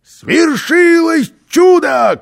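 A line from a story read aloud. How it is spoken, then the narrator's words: Shouting. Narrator (Russian): крикнул он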